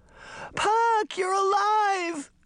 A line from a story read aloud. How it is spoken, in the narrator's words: Daphne shouted